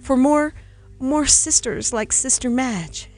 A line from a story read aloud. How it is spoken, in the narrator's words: his voice quivered and broke